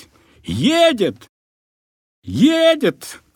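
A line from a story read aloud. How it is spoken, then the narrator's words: Shouting. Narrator (Russian): кричал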